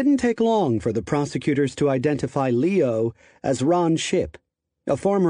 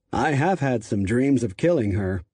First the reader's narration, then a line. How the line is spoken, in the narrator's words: Simpson added with a kind of chuckle